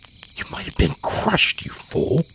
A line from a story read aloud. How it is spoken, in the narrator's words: A dozen half-formed reprimands caught in my teeth before I managed to hiss